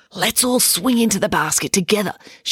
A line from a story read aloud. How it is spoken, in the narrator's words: whispered